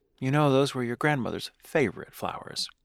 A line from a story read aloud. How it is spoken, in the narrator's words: sighed, then looked at me and said